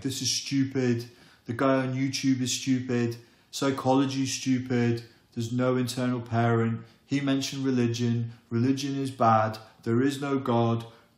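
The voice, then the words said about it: Mocking inner-critic character voice. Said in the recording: “That's your inner critic, by the way. That's my mature impression of your inner critic.”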